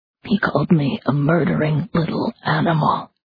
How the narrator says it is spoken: Stein whispered

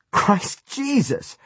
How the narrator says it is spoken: Tony cried, disgusted and still half laughing

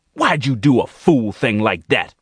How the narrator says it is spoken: she roared

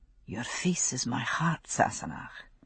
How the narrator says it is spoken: he said softly

